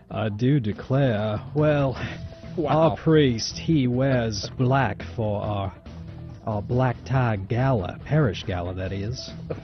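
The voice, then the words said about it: Southern US accent. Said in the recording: “What's the accent from? I'm just curious. South Carolina? ... Virginia?”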